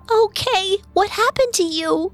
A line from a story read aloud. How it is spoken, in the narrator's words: Goethe sobbed